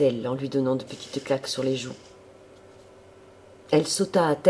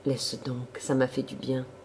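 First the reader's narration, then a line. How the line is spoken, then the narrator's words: Plain. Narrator (French): répondit-il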